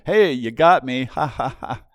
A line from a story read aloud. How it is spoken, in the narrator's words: Paul doubles over and then picks himself up off the floor and just chuckles to his partner